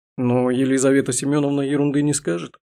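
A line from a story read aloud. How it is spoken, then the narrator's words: Laughing. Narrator (Russian): Я снова засмеялась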